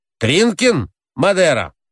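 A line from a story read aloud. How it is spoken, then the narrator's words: Shouted. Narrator (Russian): крикнул тот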